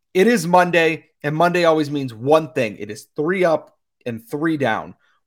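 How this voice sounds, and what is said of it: Worn-out, strained voice. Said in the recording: “I've been talking a lot today, so my voice is a little bit shot”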